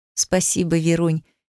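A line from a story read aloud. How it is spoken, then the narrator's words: Soft pleased laugh, mother. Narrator (Russian): мягко засмеялась довольная мама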